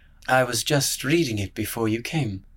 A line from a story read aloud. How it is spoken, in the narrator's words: he murmured